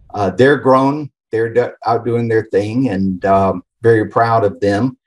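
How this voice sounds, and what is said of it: Southern US accent, Atlanta area. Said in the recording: “the accent's actually from the Atlanta area ... born and raised in the Southeast”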